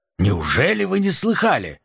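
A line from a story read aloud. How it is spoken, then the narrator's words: Exclaimed in feigned astonishment. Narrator (Russian): воскликнул Липпет с выражением изумления на лице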